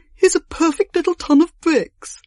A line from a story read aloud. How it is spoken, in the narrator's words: groan and try and give it up at last, saying